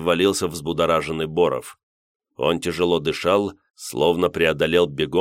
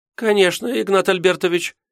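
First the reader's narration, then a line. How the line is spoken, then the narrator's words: Frightened squeak, young woman. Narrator (Russian): пискнула испуганно молодая секретарша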